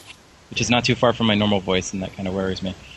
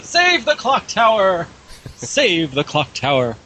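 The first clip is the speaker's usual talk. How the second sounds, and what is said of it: Put-on old lady voice. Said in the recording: “you didn't sound feminine enough ... my stock postmenopausal old lady voice”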